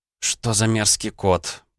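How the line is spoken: Moaning. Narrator (Russian): простонала Наталья

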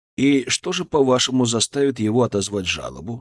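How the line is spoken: Plain. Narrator (Russian): спросил я

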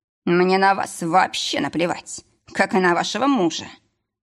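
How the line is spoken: Through gritted teeth. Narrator (Russian): процедил лекарь сквозь зубы

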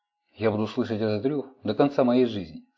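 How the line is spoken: Plain. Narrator (Russian): сказала Эйлин

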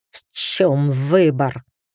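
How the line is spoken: Growled. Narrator (Russian): прорычал Дрес

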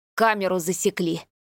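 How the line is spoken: Whistling exhale through teeth. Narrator (Russian): Со свистом выдохнул сквозь зубы парень

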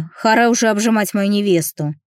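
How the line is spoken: Grumbling. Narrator (Russian): проворчал Антон

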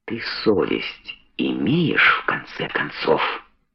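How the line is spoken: Very quiet question. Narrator (Russian): спросил тихо, тише, чем хотел бы

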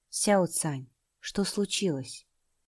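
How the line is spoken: Quiet inquiry. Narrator (Russian): осведомившись тихим голосом

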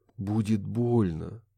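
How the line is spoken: Breathed against lips. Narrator (Russian): Не отрываясь от горячих губ Нессы Уолш, выдохнул он

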